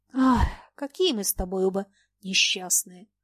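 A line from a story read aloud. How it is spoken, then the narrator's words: Said with a sigh. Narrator (Russian): сказала Люба и вздохнула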